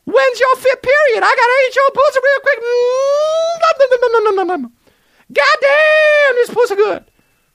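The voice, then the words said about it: Imitates another person's voice. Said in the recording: “worst impression of all time ... my Chris Tucker impression”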